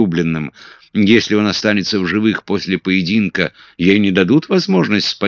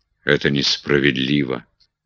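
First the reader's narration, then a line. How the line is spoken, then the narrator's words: Gloomy. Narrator (Russian): мрачно Питер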